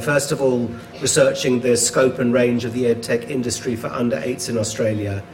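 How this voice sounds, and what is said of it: Australian accent. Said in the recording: “I'm currently based in a university in Australia, as you can tell from my accent”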